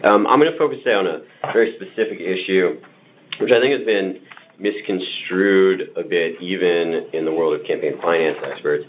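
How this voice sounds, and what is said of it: Hoarse, strained voice. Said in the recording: “I want to just apologize first for the state of my voice here... I've spent the last couple of evenings at our lovely ballpark... which is been a somewhat loud place lately, so I find myself a bit hoarse today”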